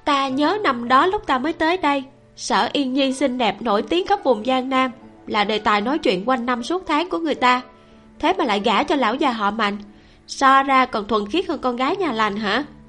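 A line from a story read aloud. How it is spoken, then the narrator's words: Mocking smirk. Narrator (Vietnamese): Lưu Hồng Đàm nhếch môi lên, trong nụ cười còn mang ý chế nhạo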